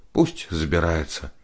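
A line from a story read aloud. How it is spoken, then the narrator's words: Sighing. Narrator (Russian): вздохнула Аня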